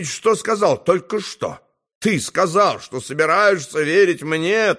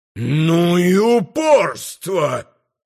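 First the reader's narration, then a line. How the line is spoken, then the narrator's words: Angry howl. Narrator (Russian): взвыл инквизитор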